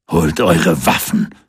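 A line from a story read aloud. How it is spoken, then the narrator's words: Thunderous booming voice. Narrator (German): donnerte Wilke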